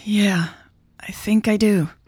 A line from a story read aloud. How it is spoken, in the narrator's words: Michelle sighed